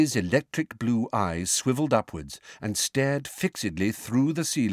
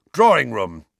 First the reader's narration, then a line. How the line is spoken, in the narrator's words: he growled